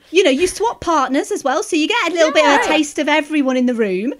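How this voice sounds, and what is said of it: British accent. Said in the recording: “It's that British accent.”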